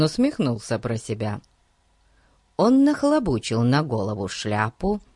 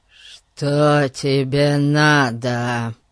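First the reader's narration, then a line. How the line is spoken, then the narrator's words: Muffled, very sinister voice. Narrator (Russian): Спросил он глухим и весьма зловещим голосом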